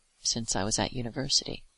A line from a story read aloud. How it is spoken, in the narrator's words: I confessed quietly